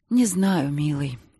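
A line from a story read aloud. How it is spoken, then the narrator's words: Sighing. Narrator (Russian): снова вздохнула она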